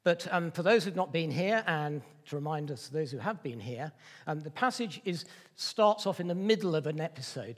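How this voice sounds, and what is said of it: Slightly congested, off-sounding voice. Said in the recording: “I've got a bit of a cold at the moment, so my voice isn't quite right”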